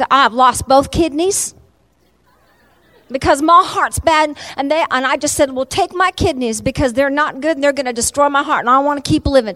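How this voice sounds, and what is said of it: Put-on Southern American accent. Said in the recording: “in a southern accent”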